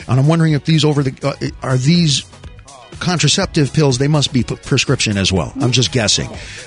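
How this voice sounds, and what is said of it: Stuttering, halting speech. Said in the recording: “why I'm stuttering”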